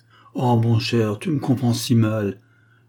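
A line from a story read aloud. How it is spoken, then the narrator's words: Pitiful tone. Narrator (French): dit d'un ton piteux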